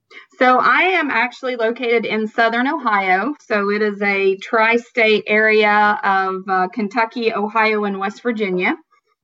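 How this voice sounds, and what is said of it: Southern American accent. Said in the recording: “my accent would lead you to believe that I'm Southern. So I get accused a lot of being from Tennessee or even Alabama and Mississippi”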